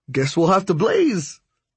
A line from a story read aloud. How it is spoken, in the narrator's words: Hondo said, a little too excitedly